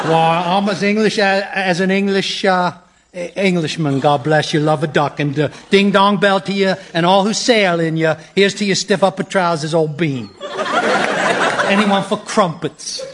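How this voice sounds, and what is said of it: Exaggerated ridiculous English accent. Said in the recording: “Why is he talking like that? ... that ridiculous accent?”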